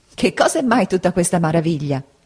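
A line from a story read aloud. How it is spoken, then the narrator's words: Laughing woman. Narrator (Italian): disse ridendo la buona donna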